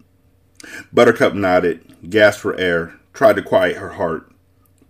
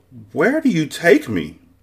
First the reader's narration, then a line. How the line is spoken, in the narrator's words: Buttercup gasped